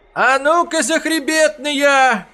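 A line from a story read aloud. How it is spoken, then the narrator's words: High-pitched cry. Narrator (Russian): скрикнул тонким голосом Перхуша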